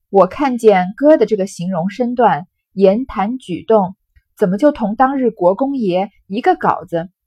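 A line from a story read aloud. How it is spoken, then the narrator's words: Tearful. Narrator (Chinese): 说着，两眼流下泪来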